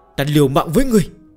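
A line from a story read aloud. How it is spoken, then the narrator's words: Wailing in unison. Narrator (Vietnamese): đồng loạt gào khóc như chết cha chết mẹ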